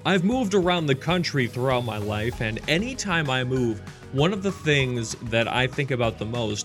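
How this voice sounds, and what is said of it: Midwestern American accent. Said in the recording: “if you haven't been able to tell by my accent, I am not originally from Georgia. I'm actually from the Midwest. I was born and raised in Minnesota”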